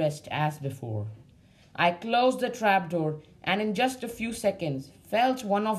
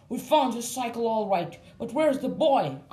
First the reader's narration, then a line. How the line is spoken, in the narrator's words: asked Sam angrily